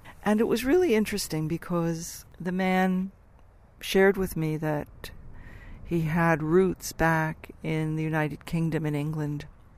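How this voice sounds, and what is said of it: American accent. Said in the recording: “I don't have a typical Australian accent. I'm actually quite American”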